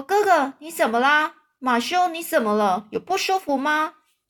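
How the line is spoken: Startled cry. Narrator (Chinese): 玛丽娜忽然惊叫着说

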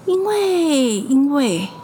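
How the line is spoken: Playful, teasing. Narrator (Chinese): 他还顽皮做鬼脸说

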